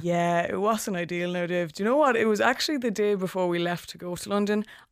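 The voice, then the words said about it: Strong accent, hard for outsiders. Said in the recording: “my accent, sometimes I think, do they understand what I'm saying? Can this go international?”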